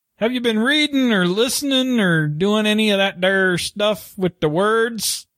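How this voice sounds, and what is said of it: Southern twang accent. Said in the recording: “Somehow that sounds very natural from you. ... I am a southern boy. ... I get my twang back. ... How ... got his twang back.”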